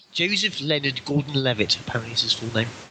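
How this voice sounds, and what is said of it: Put-on English accent. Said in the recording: “I read it out in an English accent”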